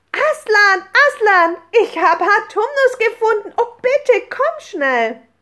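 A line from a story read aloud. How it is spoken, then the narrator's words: Calling out. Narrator (German): als Lucy nach oben stürmte und rief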